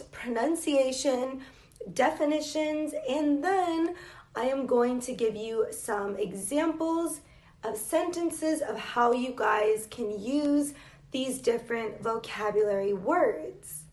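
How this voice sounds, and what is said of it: American English accent. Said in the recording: “I am an English teacher from the United States ... with an American accent, which is where I am from”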